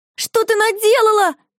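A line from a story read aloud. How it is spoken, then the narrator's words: Shouted. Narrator (Russian): закричала Марфуша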